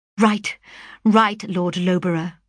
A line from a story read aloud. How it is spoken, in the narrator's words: cried I